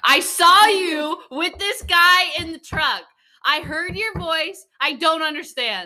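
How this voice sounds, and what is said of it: Raised, loud voice. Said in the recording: “This is an all cap, so I'm going to raise my voice.”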